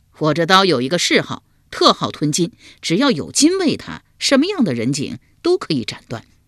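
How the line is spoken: Laughing reply. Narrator (Chinese): 秋亚会意，笑回道

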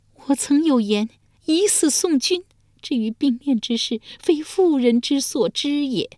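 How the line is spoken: Long sigh. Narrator (Chinese): 遂长叹一声说道

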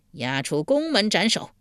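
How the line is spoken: Angry. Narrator (Chinese): 晋惠公一脸怒色道

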